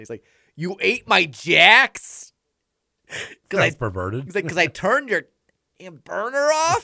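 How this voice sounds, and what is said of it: Imitated thick Milwaukee accent. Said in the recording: “he's got this big, thick Milwaukee's accent ... is that what Milwaukee sounds like? ... I'm hearing Fargo in there a lot.”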